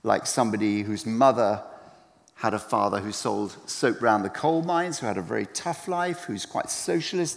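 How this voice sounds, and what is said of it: British accent. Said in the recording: “as you can probably tell from my accent, I read it like a Brit”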